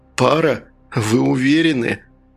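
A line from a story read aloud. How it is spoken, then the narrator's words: Sighing. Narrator (Russian): Смайл вздохнул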